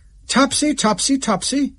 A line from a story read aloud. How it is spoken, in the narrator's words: cried Tomás